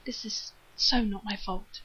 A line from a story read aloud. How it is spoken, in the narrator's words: Rodney muttered desperately